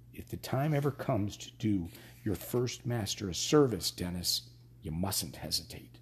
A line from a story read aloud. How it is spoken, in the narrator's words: the voice of his Da, his own dear dead Da, whispering